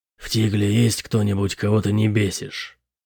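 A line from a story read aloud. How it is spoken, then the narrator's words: Quiet question. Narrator (Russian): Тихо спросил Бэтрим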